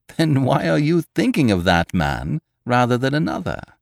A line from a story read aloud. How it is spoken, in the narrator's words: asked with a laugh